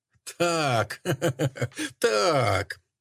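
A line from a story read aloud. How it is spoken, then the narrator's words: Contemptuous laugh. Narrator (Russian): Она презрительно засмеялась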